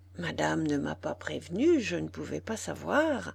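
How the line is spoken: Murmur. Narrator (French): murmura Zoé

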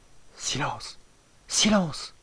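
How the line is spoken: Dying man's murmur. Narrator (French): murmura le moribond

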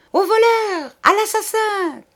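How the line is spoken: Shouted. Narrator (French): cria Betty

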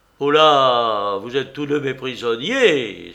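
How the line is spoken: Terrible booming voice. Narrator (French): s'écria le roi Locke d'une voix terrible

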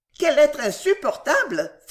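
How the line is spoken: Lady exclaiming. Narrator (French): s'écria l'une des dames

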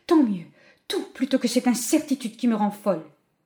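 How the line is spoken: Exclamation. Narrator (French): s'écria-t-elle

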